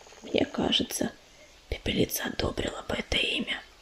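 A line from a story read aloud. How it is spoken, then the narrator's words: Whisper. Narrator (Russian): прошептала Медуница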